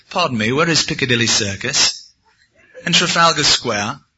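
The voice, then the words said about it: Attempted English accent, sounds Californian. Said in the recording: “I tried to pull off a good English accent ... you're from California, aren't you?”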